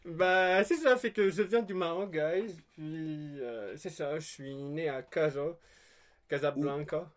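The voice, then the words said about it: Moroccan accent in French. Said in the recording (French): “t'as clairement un accent ... T'as pas perdu ton accent du Maroc selon moi”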